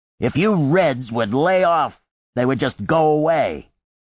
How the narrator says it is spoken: The vegetable seller said loudly

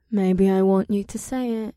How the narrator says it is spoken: she purred

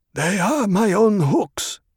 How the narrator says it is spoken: Shishakli said in a husky voice

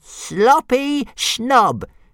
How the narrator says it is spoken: jeered Toothless

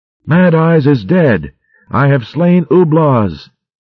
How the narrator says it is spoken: Battling madly, shouting

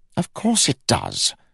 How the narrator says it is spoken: snapped Rye

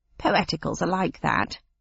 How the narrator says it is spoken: said the cabbie with a disrespectful snort

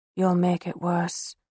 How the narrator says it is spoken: Avitas murmurs in my ear

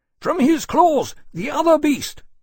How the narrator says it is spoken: Granby shouted back after a moment

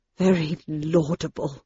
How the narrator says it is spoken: murmured Dr

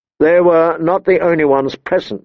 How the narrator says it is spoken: Ned said

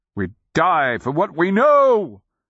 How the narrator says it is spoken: the nonman boomed

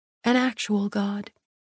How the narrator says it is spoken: I replied as flatly as Castile would have

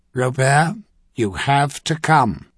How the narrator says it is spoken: Zamsin Trinair said flatly

